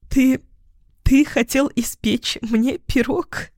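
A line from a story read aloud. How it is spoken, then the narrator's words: Forced out through laughter. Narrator (Russian): выдавила сквозь смех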